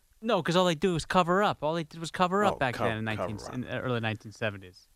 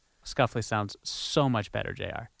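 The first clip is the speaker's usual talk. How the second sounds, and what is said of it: Sarcastic tone. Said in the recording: “I'm being sarcastic.”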